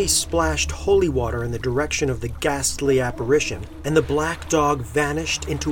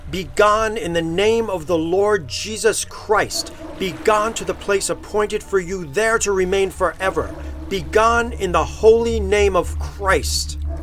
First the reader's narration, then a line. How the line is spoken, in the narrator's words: said in a strong, loud voice